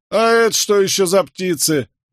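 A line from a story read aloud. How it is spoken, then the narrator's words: Mocking shout. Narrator (Russian): насмешливо крикнул один из крестьян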